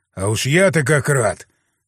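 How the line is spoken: Snorting. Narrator (Russian): хмыкнул я

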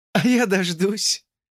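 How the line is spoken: Laughing. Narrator (Russian): засмеялась она

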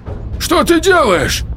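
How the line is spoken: Young man shouting. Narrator (Russian): крикнул молодой Вержбицкий

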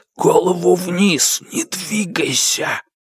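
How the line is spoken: Whispered into ear. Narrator (Russian): Человек прошептал ему на ухо

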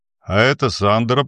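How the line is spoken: Grumbled. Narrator (Russian): пробурчал Чески

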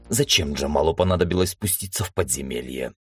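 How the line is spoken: Grumbling. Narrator (Russian): ворчал я

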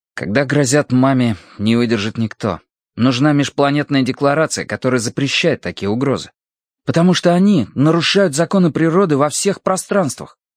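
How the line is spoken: Embarrassed, angry declaration. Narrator (Russian): Тетим, который умел быть даже суровым, почему-то застеснялся и сердито заявил

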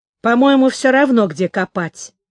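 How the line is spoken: Plain. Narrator (Russian): сказал он

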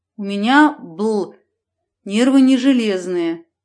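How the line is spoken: Through gritted teeth. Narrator (Russian): процедил водитель сквозь сжатые зубы

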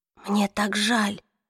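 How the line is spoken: Whisper. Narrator (Russian): прошептала Клэри

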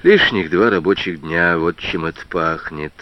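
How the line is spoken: Sad inner thought. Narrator (Russian): грустно подумал Прохоров

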